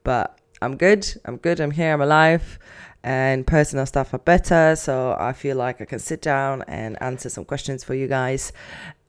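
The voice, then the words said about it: Sick, lowered voice. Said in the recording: “getting sick ... you're gonna hear my sexy voice, I guess, a little bit down. I'm gonna be probably editing bear coughs out of this”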